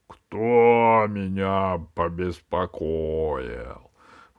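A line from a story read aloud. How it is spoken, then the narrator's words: Terrifying wail, genie. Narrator (Russian): возопил Джин страшным голосом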